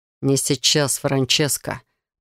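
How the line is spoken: Growled. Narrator (Russian): прорычал он

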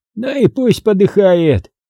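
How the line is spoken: Indifferent chuckle. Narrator (Russian): равнодушно хохотнул охранник

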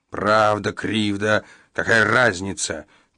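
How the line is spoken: Growling, increasingly irritated. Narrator (Russian): прорычал Иеремия, раздражаясь все больше

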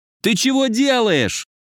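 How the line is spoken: Yelling. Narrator (Russian): заорал Леха

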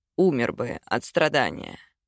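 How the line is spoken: Serious voice. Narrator (Russian): серьезным голосом сказал

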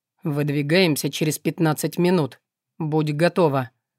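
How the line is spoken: Cold, curt. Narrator (Russian): холодно бросил повелитель ужасных

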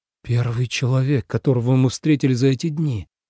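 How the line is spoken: Breathless disbelief. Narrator (Russian): выдохнул Ленард, не веря собственным глазам

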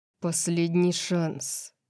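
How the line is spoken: Quiet. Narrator (Russian): тихо сказал Орион только для него

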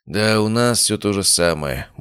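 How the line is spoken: Gruff mutter. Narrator (Russian): буркнул Илья

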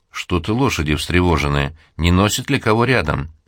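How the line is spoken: Plain. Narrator (Russian): сказал один

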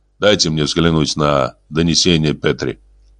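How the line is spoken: Sad, after a pause. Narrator (Russian): Помолчав, он печально добавил

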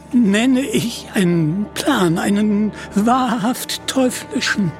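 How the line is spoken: Stammering. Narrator (German): stammelte er

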